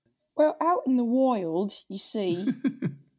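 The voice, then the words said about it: Badly done put-on accent. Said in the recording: “that was a terrible accent ... Terrible”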